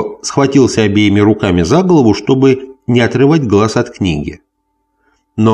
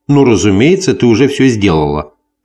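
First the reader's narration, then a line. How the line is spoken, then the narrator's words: Grumble. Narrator (Russian): проворчал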